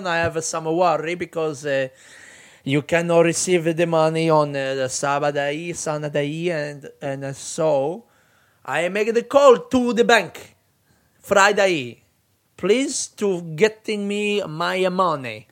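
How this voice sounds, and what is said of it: Put-on foreign accent, broken English. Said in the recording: “What accent was that, do you reckon? Italy?”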